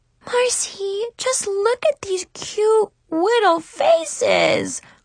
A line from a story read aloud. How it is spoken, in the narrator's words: Chloe squeaked in baby talk